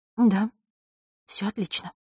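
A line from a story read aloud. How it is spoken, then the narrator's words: Trembling whisper. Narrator (Russian): прошептала она, и голос ее задрожал под холодным, изучающим взглядом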